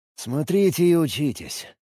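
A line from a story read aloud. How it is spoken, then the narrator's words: Grumbling mutter. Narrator (Russian): буркнул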